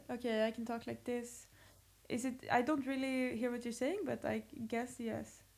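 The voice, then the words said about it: Put-on Swedish accent, French-sounding intonation. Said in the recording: “do your Swedish accent. ... Why does it sound French? Like, it's so funny. The whole intonation of it.”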